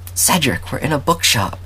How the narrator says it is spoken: dragon hissed

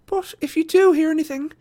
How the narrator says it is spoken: she pleaded

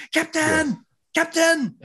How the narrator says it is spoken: Chakotay, her true love, was yelling

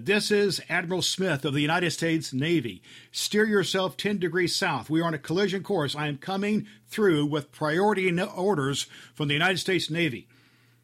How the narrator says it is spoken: he shouted

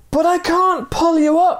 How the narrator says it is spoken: the man cried

